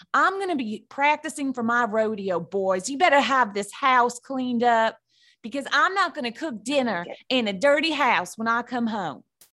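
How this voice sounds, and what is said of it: Playful cowgirl character voice. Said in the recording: “I think I'd go full cow... Cowgirl... I go real cowgirl.”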